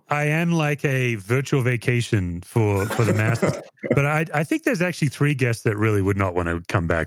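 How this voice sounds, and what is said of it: Noticeable foreign-sounding accent. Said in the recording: “hear your accent and make us feel like we're taking a trip someplace”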